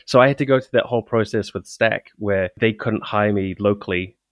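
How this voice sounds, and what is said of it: Non-American English accent. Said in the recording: “for those of you who can't tell by my accent, I'm not American”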